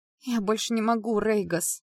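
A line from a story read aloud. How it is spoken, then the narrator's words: Moaning. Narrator (Russian): простонала я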